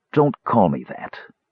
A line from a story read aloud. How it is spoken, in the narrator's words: he whispered